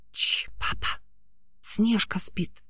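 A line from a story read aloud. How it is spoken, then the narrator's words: Whispered. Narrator (Russian): прошептала Эля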